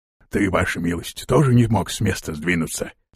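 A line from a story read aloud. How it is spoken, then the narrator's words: Whispered question. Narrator (Russian): спросил шепотом Торвилл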